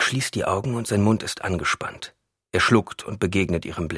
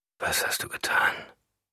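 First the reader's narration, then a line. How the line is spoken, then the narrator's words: Quiet question. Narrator (German): fragt er leise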